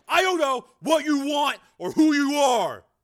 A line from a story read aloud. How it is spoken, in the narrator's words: Joe shouted angrily into the phone